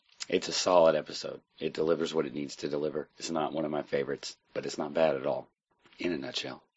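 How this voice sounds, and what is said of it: Husky, congested sick voice. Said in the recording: “I have a really bad chest/head cold right now, so that's why my voice sounds all jacked up ... the husky version of my voice”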